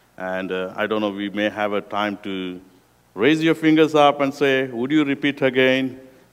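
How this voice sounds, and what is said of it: Unusual accent, rough tone. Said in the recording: “my accents are very weird, and my tone is very rough”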